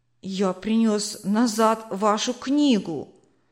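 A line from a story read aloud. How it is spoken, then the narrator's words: Timid. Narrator (Russian): Робко проговорил Василь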